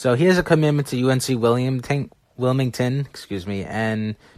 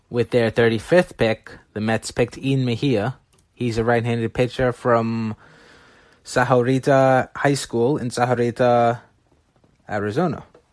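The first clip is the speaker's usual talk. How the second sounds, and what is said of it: Spanish accent on names. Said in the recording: “You like my Spanish accent there.”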